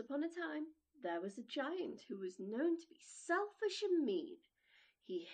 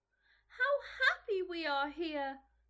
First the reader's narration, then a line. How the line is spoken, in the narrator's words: they cried to each other